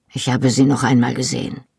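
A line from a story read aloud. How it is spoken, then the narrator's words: Softly spoken. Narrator (German): sagte er leise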